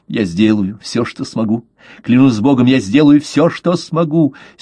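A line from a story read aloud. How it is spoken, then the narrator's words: Ardent youthful exclamation. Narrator (Russian): с юношеской горячностью воскликнул дон Эстебан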